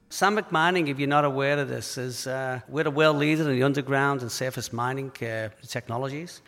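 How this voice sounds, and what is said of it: Liverpool accent. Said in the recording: “the accent, that's a Liverpool accent”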